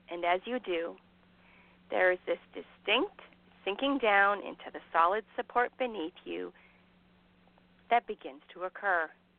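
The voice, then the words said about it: Calm hypnotist-style voice. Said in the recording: “put on my hypnosis voice”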